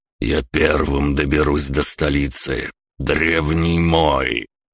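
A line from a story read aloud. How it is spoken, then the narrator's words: Icy voice. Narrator (Russian): ледяным голосом произнес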